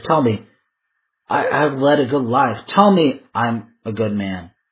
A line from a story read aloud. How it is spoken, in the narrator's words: he stammers